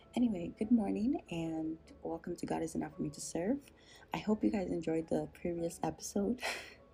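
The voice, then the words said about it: Raspy voice. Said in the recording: “Hence my raspy voice that you can probably hear right now.”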